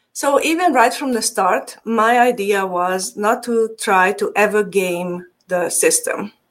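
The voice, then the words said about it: Hungarian accent. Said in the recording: “my accent is Hungarian. I'm from Transylvania.”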